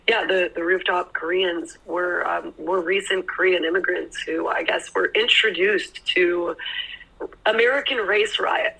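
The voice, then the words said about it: Weak, fading voice. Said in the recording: “My voice is slowly disappearing.”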